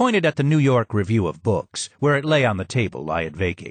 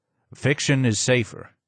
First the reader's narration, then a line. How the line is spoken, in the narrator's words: he said